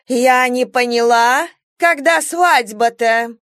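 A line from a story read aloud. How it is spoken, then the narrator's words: Shrill bossy female voice. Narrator (Russian): Голос у нее был визгливо-начальственный, как у дамы, привыкшей вести собрание-заседание и призывать аудиторию к порядку, затыкать буянов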